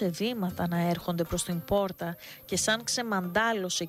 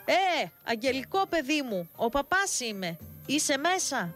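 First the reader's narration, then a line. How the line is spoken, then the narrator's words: Loud distinctive calling. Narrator (Greek): φώναξε με τη χαρακτηριστική σε όλο το χωριό φωνή του δυνατά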